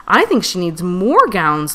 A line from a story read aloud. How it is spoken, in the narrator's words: Luna Unicorn exclaimed